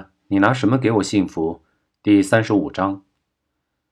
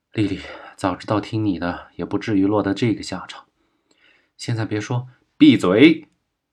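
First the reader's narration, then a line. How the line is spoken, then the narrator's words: Rough interruption. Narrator (Chinese): 就被一个小弟粗暴的打断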